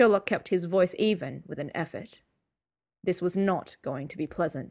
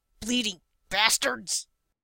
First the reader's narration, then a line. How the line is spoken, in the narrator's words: Wilkes snarled